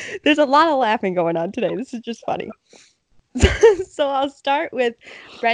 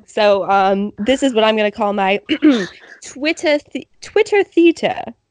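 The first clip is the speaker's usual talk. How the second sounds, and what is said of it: Attempted British accent. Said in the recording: “my best attempt at a British accent”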